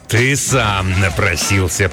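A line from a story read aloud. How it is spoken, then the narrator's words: Growling. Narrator (Russian): прорычал он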